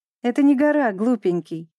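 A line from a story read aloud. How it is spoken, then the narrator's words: Laughing, mother. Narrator (Russian): смеялась мама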